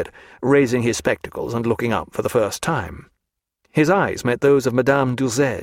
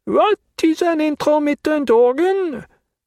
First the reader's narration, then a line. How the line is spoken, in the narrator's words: asked in her loud, deaf voice